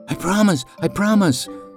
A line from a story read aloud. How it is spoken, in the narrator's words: the wolf pleaded amidst the squealing of the jubilant animal